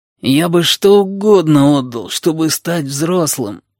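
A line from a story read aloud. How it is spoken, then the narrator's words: Moaned. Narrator (Russian): простонал Сиамец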